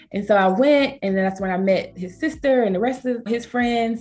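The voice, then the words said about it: Southern American accent. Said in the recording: “I have a, you know, a Southern accent being from Georgia.”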